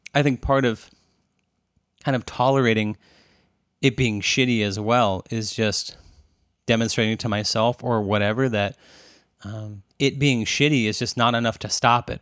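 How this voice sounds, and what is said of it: Strained, fading hoarse voice. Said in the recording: “I'm sort of losing my voice here”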